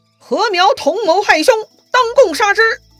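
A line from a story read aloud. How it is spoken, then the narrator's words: Loud shout. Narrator (Chinese): 吴匡就大喊了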